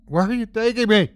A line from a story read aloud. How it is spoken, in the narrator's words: Heather cried out